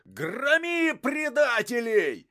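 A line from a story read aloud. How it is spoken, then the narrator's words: Crowd-rousing shout. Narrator (Russian): закричал в толпе зазывало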